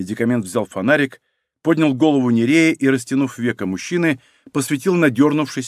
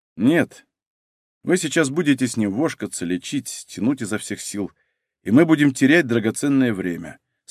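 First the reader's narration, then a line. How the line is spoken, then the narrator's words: Calm tone. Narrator (Russian): спокойным тоном сказал Денис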